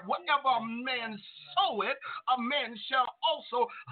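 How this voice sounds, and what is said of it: Preacher voice. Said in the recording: “in a preacher voice.”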